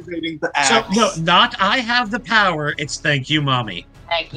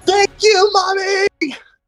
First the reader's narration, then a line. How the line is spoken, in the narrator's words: Flambe will raise the axe above his head and shout into the sky